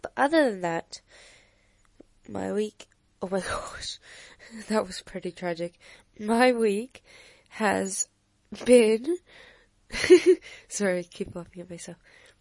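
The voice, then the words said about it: Hoarse, crackly recovering voice. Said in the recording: “my voice has still not recovered ... my voice is crispy, crunchy again. Because it is not yet fully healed.”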